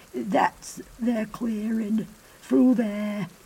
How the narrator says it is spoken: whispered the thin, frail man

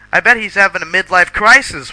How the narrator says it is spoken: Willow shouted

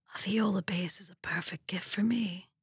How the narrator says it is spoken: my husband whispered

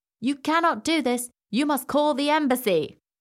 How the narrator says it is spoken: he shouted

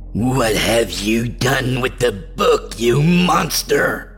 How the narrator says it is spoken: snarled in my head

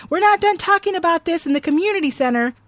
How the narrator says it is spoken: yelling

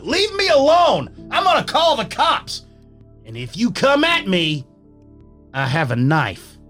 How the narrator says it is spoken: I get angry and I yell out

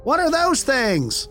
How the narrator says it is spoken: in a voice that only a kid can project, they screamed out aloud

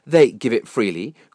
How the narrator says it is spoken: cried Lucifer defiantly

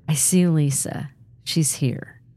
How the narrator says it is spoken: finally whispered

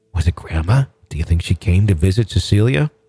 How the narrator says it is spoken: She continued in a hushed whisper

